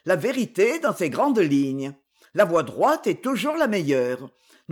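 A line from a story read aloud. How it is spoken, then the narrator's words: Brisk, lively. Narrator (French): répondit vivement Séverin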